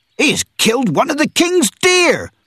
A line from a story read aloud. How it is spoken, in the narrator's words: cried one of the foresters